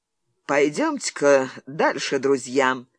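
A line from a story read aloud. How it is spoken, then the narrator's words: Ingratiating coaxing tone. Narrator (Russian): вкрадчивым тоном обратился к своему отряду начальник полиции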